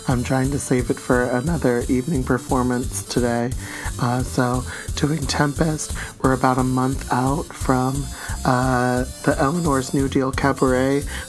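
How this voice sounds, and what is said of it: Hoarse, worn-out voice. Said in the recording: “That sexy combination of a 900 number voice and a NPR host ... as you can tell from my voice, I scream a lot during the show, so I don't have much of a voice left”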